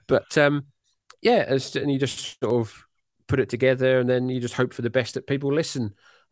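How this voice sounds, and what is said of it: British accent. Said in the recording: “my jolly British accent”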